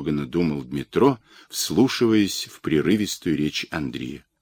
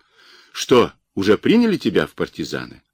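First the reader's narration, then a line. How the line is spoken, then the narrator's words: Cheerful question. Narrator (Russian): Синица весело спросил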